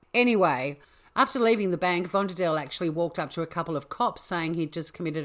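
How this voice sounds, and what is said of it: Usual voice. Nothing is said of it.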